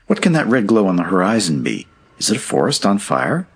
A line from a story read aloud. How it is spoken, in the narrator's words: exclaimed the maiden